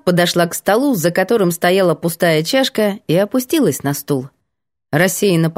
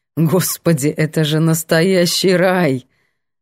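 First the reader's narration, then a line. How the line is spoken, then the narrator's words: Laughing. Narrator (Russian): Светка хохотнула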